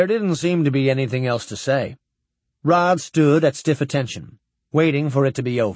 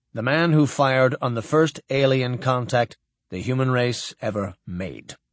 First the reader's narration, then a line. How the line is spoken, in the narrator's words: Cranston said coldly